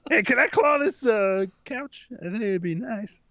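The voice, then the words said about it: Strong bobcat voice trailing off unsure. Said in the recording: “Your bobcat impression is incredible. Not only is it good, it's also very funny. ... when you start, it's like that strong bobcat voice. But at the end of your sentence, you're a little unsure of yourself.”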